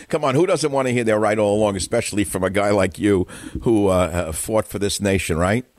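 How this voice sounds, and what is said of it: New York, Brooklyn-style accent. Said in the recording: “You talk like you're from Brooklyn.”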